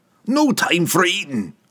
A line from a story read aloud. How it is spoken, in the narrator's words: Bruner snapped back